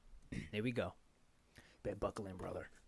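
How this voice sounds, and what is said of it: Imitates another person's voice. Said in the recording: “That's my my impersonation of ... Hulk Hogan.”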